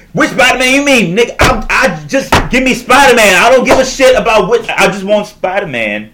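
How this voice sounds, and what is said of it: Yelling. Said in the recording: “I'm yelling. I apologize.”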